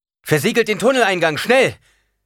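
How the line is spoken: Called out. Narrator (German): rief Paul

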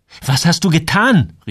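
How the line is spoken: Calling out. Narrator (German): rief Joel

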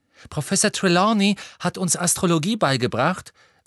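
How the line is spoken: Excited. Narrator (German): sagte Pavati aufgeregt

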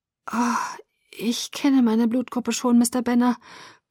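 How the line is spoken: Weak. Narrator (German): sagte ich schwach

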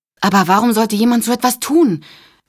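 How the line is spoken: Called out. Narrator (German): rief Rachel

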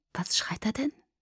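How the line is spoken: Whispered. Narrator (German): flüsterte ich

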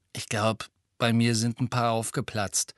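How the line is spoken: Hollow voice. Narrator (German): sagte Fred mit hohler Stimme

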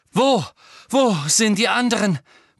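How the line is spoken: Panting. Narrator (German): keuchte Harry

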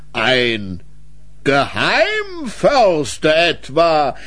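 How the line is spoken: Mayor's stiff forced laugh. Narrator (German): Der Bürgermeister lachte etwas zu hölzern über seinen eigenen Scherz

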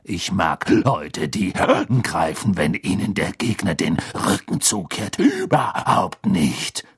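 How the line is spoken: Growling. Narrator (German): knurrte Moody

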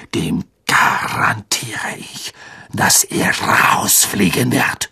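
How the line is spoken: Hissed. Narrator (German): zischte Snape

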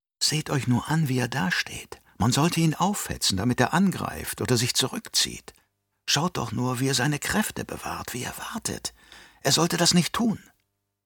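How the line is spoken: Spectators whispering. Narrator (German): Die Liebhaber von Kämpfen würden bereits jetzt flüstern

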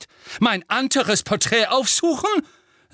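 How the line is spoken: Shrill voice. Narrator (German): sagte Phineas mit schriller Stimme und täuschte ein ausgiebiges Gähnen vor

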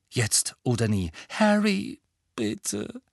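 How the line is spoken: Weak pleading. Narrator (German): flehte Hermine matt

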